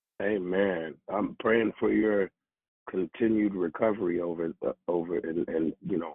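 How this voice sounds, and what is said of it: Hoarse, weakened voice. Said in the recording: “my voice is on vacation”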